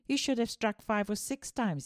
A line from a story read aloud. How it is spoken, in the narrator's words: he said